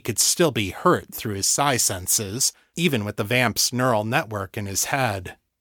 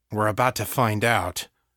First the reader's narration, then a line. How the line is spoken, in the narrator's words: Victor growled